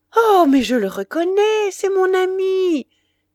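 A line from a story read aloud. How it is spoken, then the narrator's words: Woman exclaiming. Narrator (French): s'écria la maîtresse de Saint-Loup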